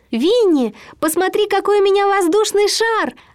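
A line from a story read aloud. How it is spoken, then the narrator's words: Joyful shout. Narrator (Russian): радостно прокричал ему Кристофер Робин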